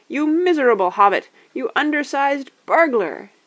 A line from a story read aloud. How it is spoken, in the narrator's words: he shouted, at a loss for words